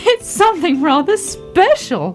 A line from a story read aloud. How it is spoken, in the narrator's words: laughed Daddy Ted